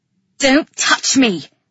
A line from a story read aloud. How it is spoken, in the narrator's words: she snarled